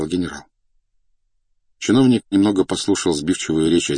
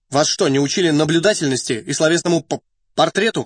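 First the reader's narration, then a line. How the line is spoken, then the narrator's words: Angry question. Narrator (Russian): зло поинтересовался чиновник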